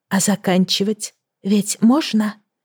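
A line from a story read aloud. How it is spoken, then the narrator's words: Whisper. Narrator (Russian): прошептала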